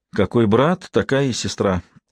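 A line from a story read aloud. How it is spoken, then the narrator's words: Sighed inwardly. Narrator (Russian): вздохнула про себя Марта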